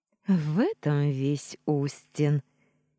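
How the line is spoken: Sudden laughter. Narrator (Russian): неожиданно рассмеялась

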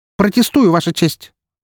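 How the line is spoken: Loud declaration. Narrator (Russian): Громко, чуть ли не на весь зал, заявила она

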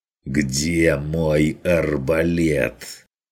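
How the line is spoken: Strained hissing repeat. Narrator (Russian): Уже на пределе шипения повторил охотник

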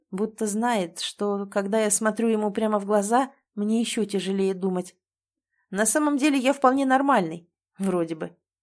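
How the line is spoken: Snorting, adding. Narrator (Russian): хмыкнув, добавляет

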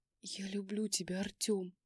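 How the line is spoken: Whisper. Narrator (Russian): прошептала я

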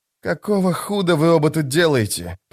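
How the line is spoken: Hissing. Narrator (Russian): прошипел он

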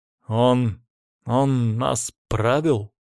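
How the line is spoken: Grumbling mutter. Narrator (Russian): пробурчал Батур

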